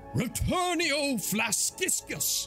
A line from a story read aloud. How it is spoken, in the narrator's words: takes a deep breath in, puffing his chest out, and with a loud bellow, shouts out